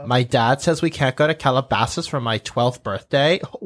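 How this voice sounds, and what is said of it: Airy Valley girl accent, vocal fry. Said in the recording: “The California Valley accent ... it's everything is so embellished ... Dumb ... rich girl ... isn't that called vocal fry? ... it's kind of airy”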